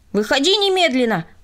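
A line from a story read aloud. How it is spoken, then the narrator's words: Indignant shout. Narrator (Russian): возмущенно крикнул он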